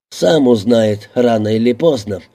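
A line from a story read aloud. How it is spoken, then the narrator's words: Choking with laughter. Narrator (Russian): давясь хохотом, ответил патрульный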